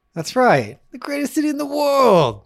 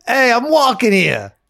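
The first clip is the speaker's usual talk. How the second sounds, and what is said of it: Put-on New York accent. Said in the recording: “that's my New York accent ... Oh, it was good ... Spot on”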